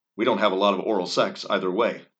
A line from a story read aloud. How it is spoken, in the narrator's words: Donnie said